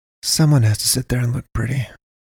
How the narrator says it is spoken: she mumbled

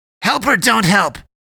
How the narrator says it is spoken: Eddie screeched

